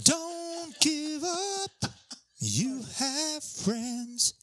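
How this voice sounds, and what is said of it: Imitates another person's voice. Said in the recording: “just a quick Kate Bush impersonation”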